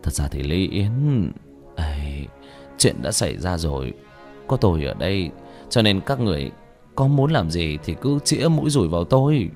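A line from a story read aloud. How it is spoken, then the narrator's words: Sighing. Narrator (Vietnamese): Cố Lâm thở dài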